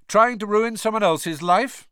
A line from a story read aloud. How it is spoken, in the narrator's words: said Harry loudly